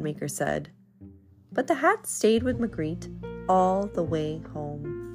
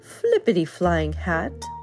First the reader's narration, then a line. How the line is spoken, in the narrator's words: laughed Magritte